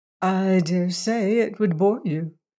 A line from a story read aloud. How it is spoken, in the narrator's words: she said meekly